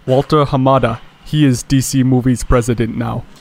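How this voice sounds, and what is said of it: Put-on accent. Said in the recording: “switch into an accent”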